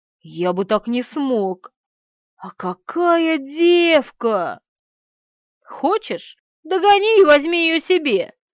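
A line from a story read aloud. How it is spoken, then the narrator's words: Grumbling, self-displeased. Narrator (Russian): буркнул Никифоров, катастрофически недовольный собой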